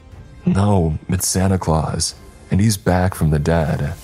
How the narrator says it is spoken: I exclaimed

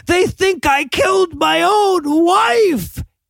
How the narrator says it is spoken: just starts screaming

